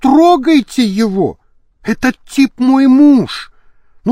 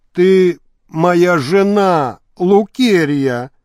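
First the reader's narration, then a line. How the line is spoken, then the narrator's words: Hoarse. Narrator (Russian): прохрипел на это Валевич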